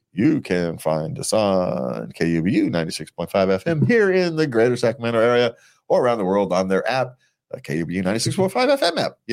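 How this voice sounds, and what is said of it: Radio announcer voice. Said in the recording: “that's my radio voice right there ... I could do the radio announcer voice”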